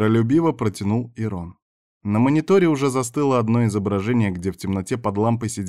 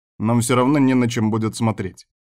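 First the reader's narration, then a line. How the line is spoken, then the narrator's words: Snorting. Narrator (Russian): фыркнул Кастер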